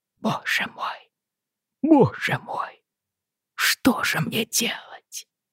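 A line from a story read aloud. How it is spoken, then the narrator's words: Whispered. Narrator (Russian): шептал он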